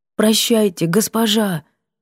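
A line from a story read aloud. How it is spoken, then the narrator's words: Forced out sadly. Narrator (Russian): тоскливо выдавила Брана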